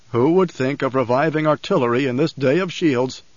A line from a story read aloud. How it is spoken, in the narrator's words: The thought was a chuckle in his mind